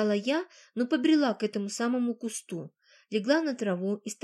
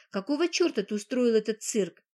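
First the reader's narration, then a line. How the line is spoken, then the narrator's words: Mocking question. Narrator (Russian): насмешливо спросила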